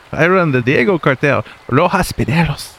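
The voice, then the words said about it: Put-on accent. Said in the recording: “you slipped in that way too easy ... I don't bust that accent out”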